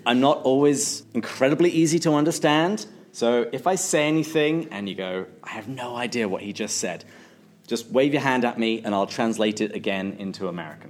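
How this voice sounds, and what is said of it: English accent. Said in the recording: “I'm originally from England, which is how I have this lovely accent.”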